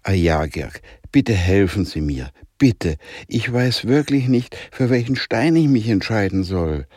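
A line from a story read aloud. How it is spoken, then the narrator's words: Loud pleading call. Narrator (German): Jonah rief flehend in die Richtung der schwarzen Wolkenwand mit lauter Stimme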